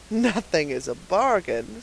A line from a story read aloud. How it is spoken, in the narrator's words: said the purchaser with a chuckle